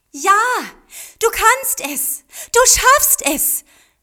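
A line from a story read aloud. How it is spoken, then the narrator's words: Encouraging call. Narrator (German): rief Mariko ermutigend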